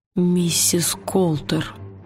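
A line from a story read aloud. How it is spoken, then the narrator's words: Whispered. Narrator (Russian): прошептал он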